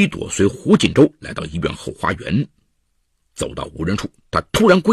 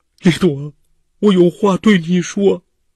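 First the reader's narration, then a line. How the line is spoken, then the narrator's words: Crying. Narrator (Chinese): 胡锦洲哭了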